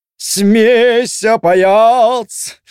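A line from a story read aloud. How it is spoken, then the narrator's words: Loud, off-key, deliberately silly singing. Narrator (Russian): очень громко и очень фальшиво запел Разумовский, специально стараясь, чтобы получилось по-дурацки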